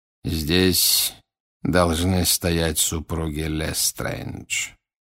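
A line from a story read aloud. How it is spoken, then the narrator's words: Quiet. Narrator (Russian): тихо произнес Волан-де-Морт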